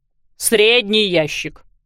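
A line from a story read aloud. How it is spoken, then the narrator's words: Barked. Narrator (Russian): рявкнула мисс Пик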